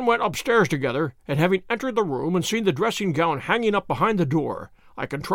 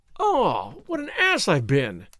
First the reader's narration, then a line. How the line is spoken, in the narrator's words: I exclaimed